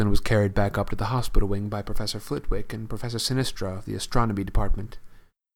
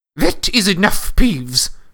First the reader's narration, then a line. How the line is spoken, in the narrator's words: barked Professor McGonagall